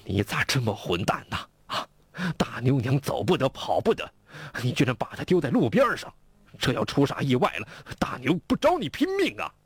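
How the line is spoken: Furious old man. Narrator (Chinese): 吴老汉更是怒不可遏呀

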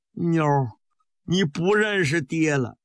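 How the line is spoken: Fearful calling out. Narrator (Chinese): 带着畏惧的叫了一声

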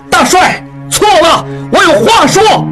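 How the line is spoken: Struggling, loud. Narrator (Chinese): 应季挣扎着回看张振武，大声说

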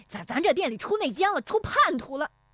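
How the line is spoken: Furious, flustered shouting. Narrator (Chinese): 石有福奔进店里，气急败坏地嚷

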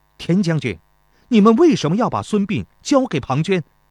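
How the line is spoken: Angry demanding. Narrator (Chinese): 钟离春怒冲冲质问道

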